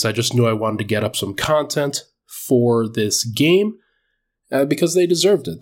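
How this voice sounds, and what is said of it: Congested, stuffy nasal voice. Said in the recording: “hear it in my voice, still getting over COVID, still very congested”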